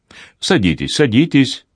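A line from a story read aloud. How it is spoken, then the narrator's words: Hurried. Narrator (Russian): торопливо сказал Колонимос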